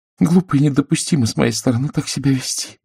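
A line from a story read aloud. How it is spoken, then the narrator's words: Muttering. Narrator (Russian): пробормотала она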